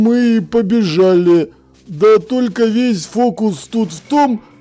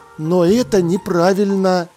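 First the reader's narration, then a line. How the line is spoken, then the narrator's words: Even voice. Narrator (Russian): ровным голосом произнес Маркоу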